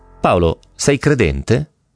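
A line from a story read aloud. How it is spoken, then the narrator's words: Calm question. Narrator (Italian): Con voce pacata mi chiese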